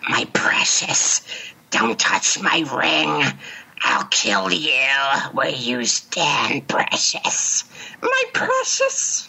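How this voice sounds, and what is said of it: Gollum creature voice. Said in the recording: “Gollum? I love Gollum, because he's like”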